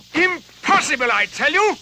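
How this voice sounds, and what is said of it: Yelling angrily. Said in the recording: “Why are you yelling at me like that?”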